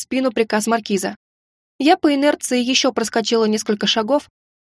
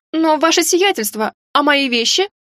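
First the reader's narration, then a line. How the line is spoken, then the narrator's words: Loud question. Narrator (Russian): Громко спросила я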